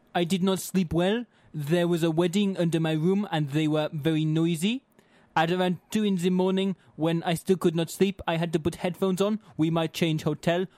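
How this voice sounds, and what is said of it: Put-on French accent. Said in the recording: “whenever ... does a French accent”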